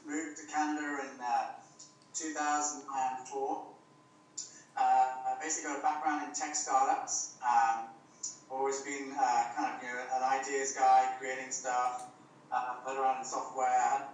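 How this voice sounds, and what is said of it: British accent. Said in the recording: “Basically British, if you can't tell from the accent”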